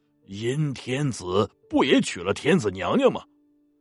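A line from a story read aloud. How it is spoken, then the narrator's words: Laughing. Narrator (Chinese): 这判官笑了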